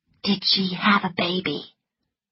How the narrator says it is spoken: whispered Scarlet

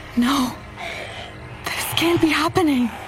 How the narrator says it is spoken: I gasped

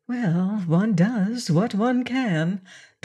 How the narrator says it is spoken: Dorothy murmured in mock modesty

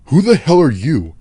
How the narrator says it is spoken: in a short, scared, angry tone

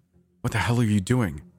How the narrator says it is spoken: said in a mixture of a yell and a whisper

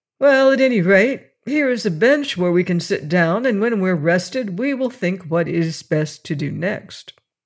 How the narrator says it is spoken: the boy fought down his tears and said cheerfully

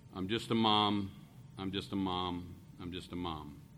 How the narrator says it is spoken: She was experiencing a home foreclosure and other things, and the woman kept muttering and repeating

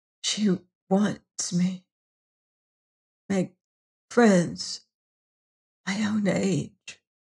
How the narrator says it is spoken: whispered Adela

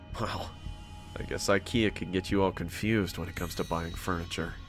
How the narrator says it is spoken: I murmured to myself

